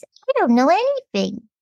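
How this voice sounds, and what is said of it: Childlike baby voice. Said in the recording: “this is my little baby voice”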